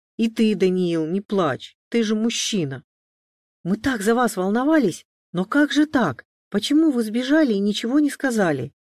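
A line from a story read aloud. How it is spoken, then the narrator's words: Exclaiming. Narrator (Russian): воскликнула Мария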